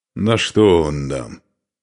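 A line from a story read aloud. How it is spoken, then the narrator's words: Displeased grumble. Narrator (Russian): недовольно проворчал Устах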